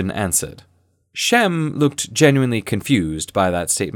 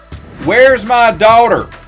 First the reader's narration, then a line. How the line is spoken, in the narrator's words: Shem yelled, seemingly unperturbed by being at the wrong end of a pistol